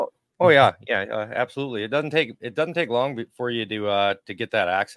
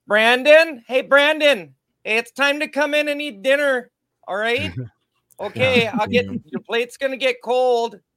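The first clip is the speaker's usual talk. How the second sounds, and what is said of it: Put-on Minnesota accent. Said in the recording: “that Minnesota accent, maybe even a little Canadian”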